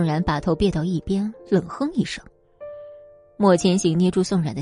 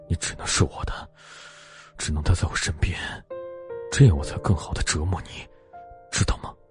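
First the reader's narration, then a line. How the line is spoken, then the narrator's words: Heavy panting. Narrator (Chinese): 莫千行喘着粗气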